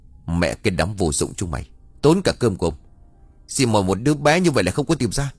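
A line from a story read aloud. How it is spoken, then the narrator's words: Angry scolding. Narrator (Vietnamese): Lão Tuất tức giận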